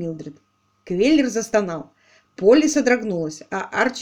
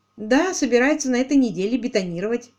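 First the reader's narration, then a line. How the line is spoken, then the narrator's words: Plain. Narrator (Russian): сказала Полли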